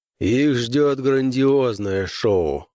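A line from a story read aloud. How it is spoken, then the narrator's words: Grim promise. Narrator (Russian): мрачно пообещал Крейвен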